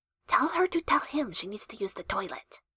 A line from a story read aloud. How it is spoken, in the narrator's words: Jester whispered